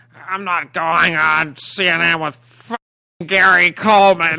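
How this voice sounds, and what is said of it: Imitates another person's voice. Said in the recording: “excellent Larry Flint ... does a Larry Flint impersonation”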